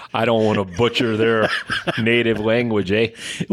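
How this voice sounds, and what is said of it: Put-on Canadian accent. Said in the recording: “give me a Canadian accent.”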